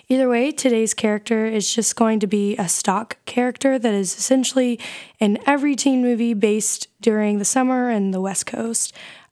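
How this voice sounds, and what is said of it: Slightly off voice, recovering. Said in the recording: “my voice might seem a little bit different today, but that's because I was a little bit sick earlier last week, but I'm starting to get my voice back”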